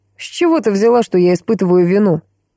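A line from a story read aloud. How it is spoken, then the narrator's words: Vampire, after laughing. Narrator (Russian): отсмеявшись, спросил вампир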